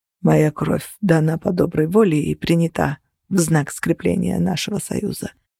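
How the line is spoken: Muttered. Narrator (Russian): пробормотал он

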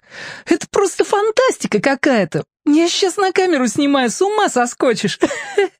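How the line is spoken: Laughing loudly. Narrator (Russian): Снова расхохоталась

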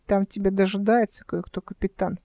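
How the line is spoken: Muttered. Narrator (Russian): пробормотал Димка

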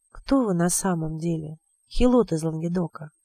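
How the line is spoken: Very quiet question. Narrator (Russian): спросил он совсем тихо

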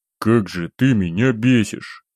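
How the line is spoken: Grumbled. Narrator (Russian): буркнул я

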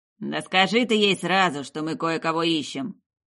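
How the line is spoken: Grumble. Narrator (Russian): проворчал Монро

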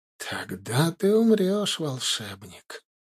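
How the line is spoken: Whisper like morning breeze. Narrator (Russian): прошептала она утренним бризом

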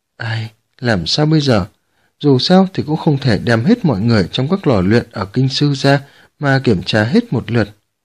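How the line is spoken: Sighing, worried mutter. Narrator (Vietnamese): Dương Lưu Chỉ thở dài, nhăn mày nhíu mặt, lẩm bẩm

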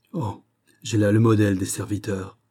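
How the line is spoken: Exclaimed. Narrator (French): s'écria le roi

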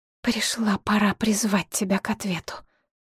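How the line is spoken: Quiet but firm. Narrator (Russian): тихо, но твердо сказала Шепсет

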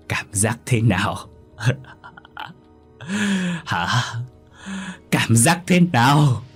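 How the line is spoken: Loud laughter. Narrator (Vietnamese): Thảo cười lớn

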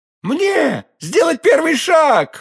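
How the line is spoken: King exclaiming. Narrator (Russian): воскликнул король

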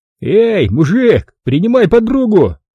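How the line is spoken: Smug young man guffawing. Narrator (Russian): Довольный своим остроумием, захохотал парень

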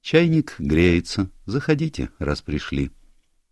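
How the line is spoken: Studiedly casual tone. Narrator (Russian): бросила подчеркнуто небрежным тоном

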